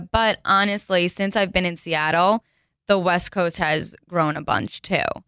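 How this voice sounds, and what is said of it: New Jersey accent. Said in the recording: “the people who aren't from New Jersey like following you because of your accent ... I love her accent”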